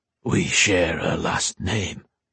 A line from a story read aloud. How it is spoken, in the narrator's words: Taryn said, his voice low, almost reverent